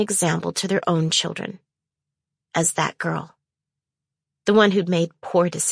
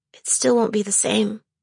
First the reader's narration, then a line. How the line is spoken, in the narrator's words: I whined